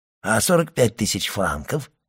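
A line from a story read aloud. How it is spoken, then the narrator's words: Hoarse question. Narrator (Russian): спросил Кадрус хриплым голосом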